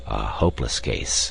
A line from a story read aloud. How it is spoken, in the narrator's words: he muttered to himself